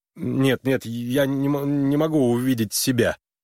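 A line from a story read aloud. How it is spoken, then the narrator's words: Stammering interruption. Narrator (Russian): заикаясь, прервал ее Харлан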